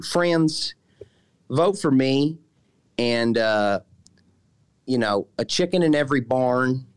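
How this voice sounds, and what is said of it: Illinois accent impression of a politician. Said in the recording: “Darren Bailey imitations, which is a good one, pretty good one ... That's very good ... This is an Illinois accent”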